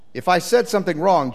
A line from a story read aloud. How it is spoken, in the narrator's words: Jesus replied